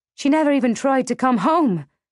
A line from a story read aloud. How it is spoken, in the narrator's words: I blurted out, the old hurt surfacing like a toothache